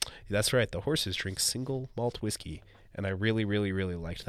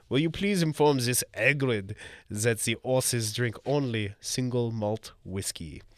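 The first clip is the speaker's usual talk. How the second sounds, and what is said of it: Put-on French accent. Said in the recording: “I apologize for the accent. ... I think she's French.”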